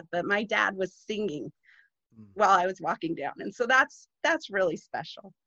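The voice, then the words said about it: Choked-up, emotional voice. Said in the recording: “this makes me cry. I'm getting a little choked up”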